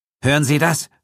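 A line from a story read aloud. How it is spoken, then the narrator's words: Fearful call. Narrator (German): rief Ferguson ängstlich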